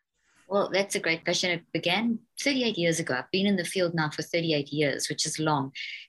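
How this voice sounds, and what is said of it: Mixed South African accent. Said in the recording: “you've got such an interesting accent ... I don't know what my accent is anymore. It's like a whole mixture ... It's that South African accent ... It's that South African twang ... It's an incredible accent”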